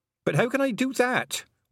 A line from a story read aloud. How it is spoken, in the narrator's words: wailed Tiffany